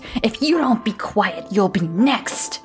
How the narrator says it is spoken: her aunt barked

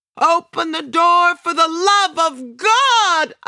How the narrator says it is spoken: I shout

